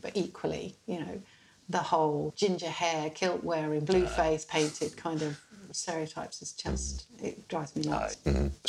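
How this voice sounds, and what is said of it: English accent. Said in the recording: “your English accent ... they hear my accent”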